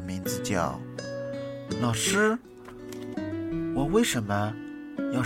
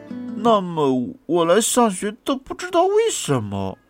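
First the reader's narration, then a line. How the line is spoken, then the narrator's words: Mumbling. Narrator (Chinese): 菲尔嘴巴里嘟囔着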